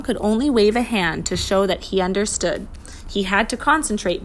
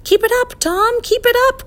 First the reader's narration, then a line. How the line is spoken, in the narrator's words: cried the professor